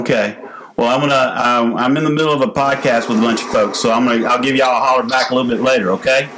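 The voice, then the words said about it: Noticeably thicker regional accent. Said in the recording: “I felt like your accent went a little thicker a couple levels there ... When talking to your parent.”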